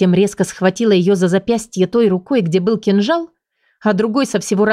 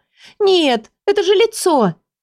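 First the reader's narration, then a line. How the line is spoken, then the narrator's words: Girl's plaintive remark. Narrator (Russian): Девушка жалобно бросила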